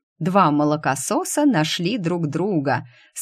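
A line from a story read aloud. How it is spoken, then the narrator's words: Laughing. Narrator (Russian): смеялся Ульрих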